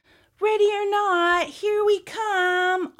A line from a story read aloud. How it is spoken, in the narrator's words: Oliver yelled